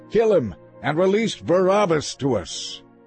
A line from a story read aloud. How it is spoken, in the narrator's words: with one voice they shouted